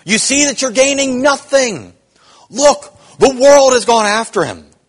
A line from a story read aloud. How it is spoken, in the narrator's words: Others cried out in anxiety